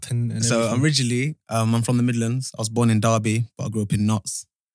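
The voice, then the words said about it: Slight English Midlands accent. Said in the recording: “you have a little bit of an accent”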